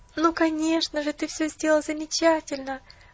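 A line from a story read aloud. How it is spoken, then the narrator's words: Sobbing. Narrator (Russian): всхлипнула Поллианна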